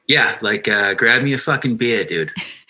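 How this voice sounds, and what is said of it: Put-on Boston accent. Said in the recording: “Can you do a Boston accent?”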